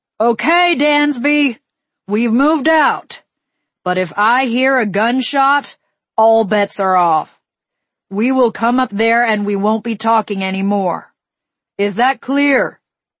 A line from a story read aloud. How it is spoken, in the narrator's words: he hollered up